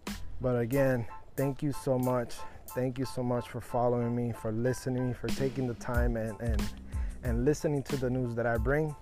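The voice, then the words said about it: Tired, out of breath. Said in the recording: “I'm a little bit tired, out of breath.”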